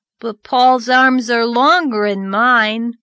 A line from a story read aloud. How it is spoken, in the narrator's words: grumbled Davy